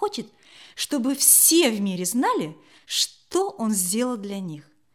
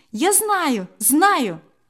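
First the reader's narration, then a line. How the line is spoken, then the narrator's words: Exclaiming. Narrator (Russian): воскликнула другая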